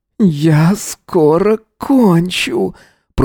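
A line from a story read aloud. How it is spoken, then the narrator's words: Moaning. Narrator (Russian): простонал Эзра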